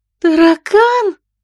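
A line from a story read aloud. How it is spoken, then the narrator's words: Shrieked. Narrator (Russian): Завизжала Марго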